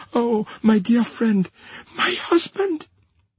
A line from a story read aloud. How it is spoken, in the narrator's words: in her paleness and wildness, she panted out imploringly